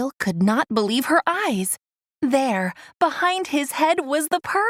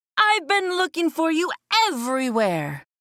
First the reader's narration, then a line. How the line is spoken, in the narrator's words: he cried